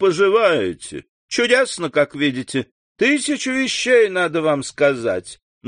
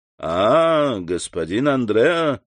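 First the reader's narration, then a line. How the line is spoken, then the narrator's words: Usual half-mocking tone. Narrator (Russian): сказал тот своим обычным полунасмешливым тоном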